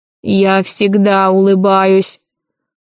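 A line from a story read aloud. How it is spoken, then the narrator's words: Grumbled. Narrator (Russian): буркнул стражник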